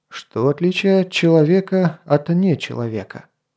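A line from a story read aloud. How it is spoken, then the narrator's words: Very quiet, young voice. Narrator (Russian): спросил юный рыцарь так тихо, что можно было подумать, будто он задает вопрос самому себе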